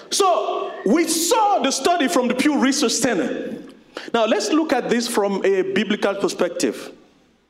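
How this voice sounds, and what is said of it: Thick accent. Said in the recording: “my thick accent”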